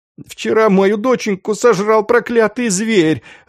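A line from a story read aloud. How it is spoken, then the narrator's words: Sobbing elderly woman. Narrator (Russian): рыдала пожилая женщина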